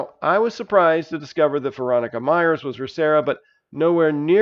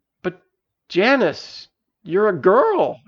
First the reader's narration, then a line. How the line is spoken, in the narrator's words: exclaimed Veronica